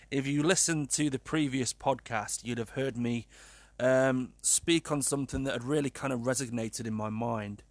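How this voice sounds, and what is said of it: Sad, subdued tone of voice. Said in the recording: “As you can probably tell by my tone of voice, a little bit of a sad start”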